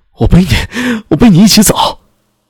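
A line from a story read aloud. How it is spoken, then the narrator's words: Hoarse shout. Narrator (Chinese): 他嘶哑的喊道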